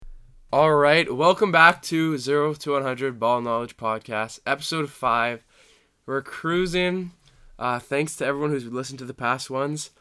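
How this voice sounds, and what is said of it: Slightly off voice, recovering from illness. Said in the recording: “my voice sounds like a little whack today, I recovered from being sick, but my voice is still recovering”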